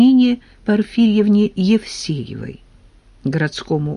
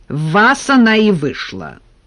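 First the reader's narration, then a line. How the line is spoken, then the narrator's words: Angry reply. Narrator (Russian): сердито ответила Нина Порфирьевна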